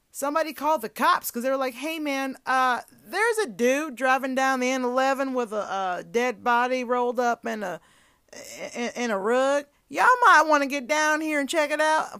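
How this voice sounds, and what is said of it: Put-on country accent. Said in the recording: “the deeper a random country accent came out ... We went from barely British to that.”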